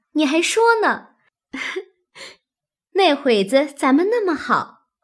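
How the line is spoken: Laughing. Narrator (Chinese): 史湘云笑道

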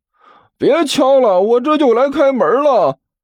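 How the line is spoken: Loud shout. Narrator (Chinese): 汪旭…对着外面大声喊道

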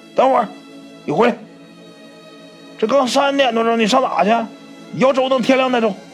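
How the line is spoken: Old man calling out. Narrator (Chinese): 这老头喊了一声

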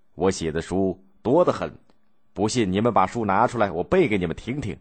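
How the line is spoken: Sneering. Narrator (Chinese): 邹荣冷笑说

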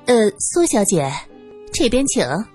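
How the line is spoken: Forced cheerful tone. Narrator (Chinese): 二姨太强颜欢笑

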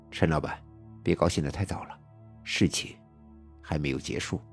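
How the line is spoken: Cold. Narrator (Chinese): 小畅冷冷地说

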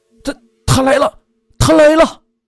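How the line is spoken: Terrified scream. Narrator (Chinese): 小王突然……恐怖的大叫

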